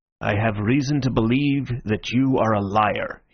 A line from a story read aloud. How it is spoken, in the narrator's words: growled